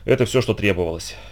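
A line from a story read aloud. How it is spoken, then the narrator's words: Heavy sigh. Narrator (Russian): тяжело вздохнул Нельсон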